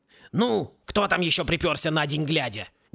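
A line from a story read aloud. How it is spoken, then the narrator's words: Menacing shout. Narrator (Russian): Грозно крикнул он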